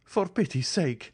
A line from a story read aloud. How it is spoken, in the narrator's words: he cried, pale and bewildered